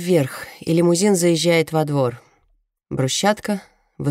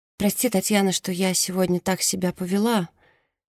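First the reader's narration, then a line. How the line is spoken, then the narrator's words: Timid. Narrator (Russian): робко говорит Мерседес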